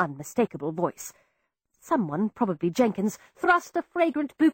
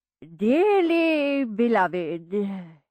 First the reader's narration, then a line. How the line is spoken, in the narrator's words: he intoned